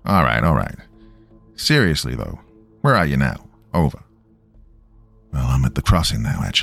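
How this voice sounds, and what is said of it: Usual voice. Nothing is said of it.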